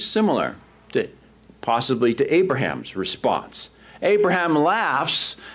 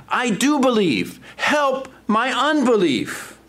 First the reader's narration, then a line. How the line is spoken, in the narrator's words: the boy's father cried out and said